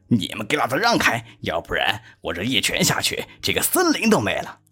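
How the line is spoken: Loud shouting. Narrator (Chinese): 站在后边的甚至大声喊道

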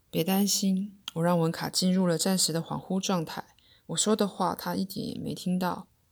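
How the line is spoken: Soft, soothing. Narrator (Chinese): 阿米轻声安慰我说

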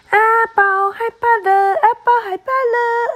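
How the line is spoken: Shrill mocking laugh. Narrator (Chinese): 对阿宝尖声怪笑

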